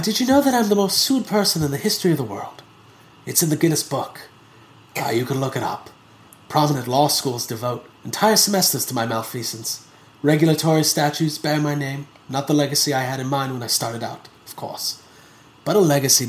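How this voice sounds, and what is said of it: Imitates a movie character's voice. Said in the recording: “I'm going to try to do my John Hammond voice.”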